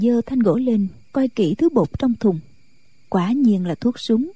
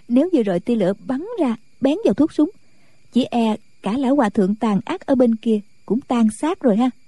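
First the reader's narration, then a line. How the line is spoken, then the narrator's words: Giggling. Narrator (Vietnamese): Nàng cười khúc khích nói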